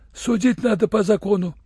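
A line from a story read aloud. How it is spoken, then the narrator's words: Uncertain. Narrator (Russian): Татарин неуверенно добавил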